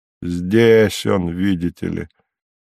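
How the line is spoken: Sarcastic, biting. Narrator (Russian): произнес голос язвительно

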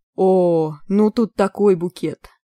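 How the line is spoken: Groaning. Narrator (Russian): простонал психоаналитик, хватаясь за голову

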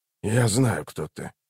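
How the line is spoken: Quiet stranger. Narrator (Russian): тихо проговорил незнакомец

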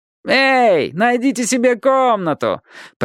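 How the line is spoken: Shouted mockingly. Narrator (Russian): прокричался тот же насмешник

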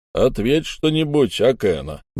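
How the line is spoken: Mocking, bitter. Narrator (Russian): насмешливо сказал мстительный Баранов, остро переживавший свое поражение в аукционе

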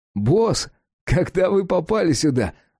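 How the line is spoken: Joyful exclamation. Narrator (Russian): радостно вскричал Кирк

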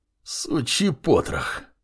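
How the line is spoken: Growled. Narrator (Russian): прорычал Маркус

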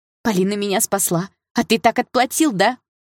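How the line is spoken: Shout. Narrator (Russian): выкрикнула Саша

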